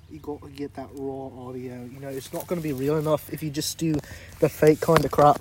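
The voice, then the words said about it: Fake put-on accent. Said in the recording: “Almost as fake as my accent.”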